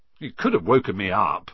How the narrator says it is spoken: said Ron, crossly

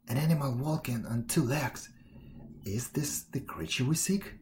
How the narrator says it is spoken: whispered the bear

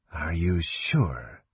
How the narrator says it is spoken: said Slith softly

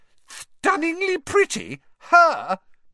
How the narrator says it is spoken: Pansy Parkinson had shrieked

